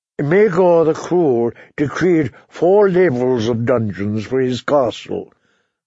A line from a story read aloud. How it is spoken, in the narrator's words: Varys replied